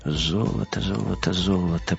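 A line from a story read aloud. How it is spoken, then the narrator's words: Muttered. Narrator (Russian): пробормотал Вим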